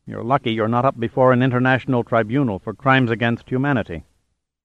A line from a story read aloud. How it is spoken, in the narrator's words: said Jordan coldly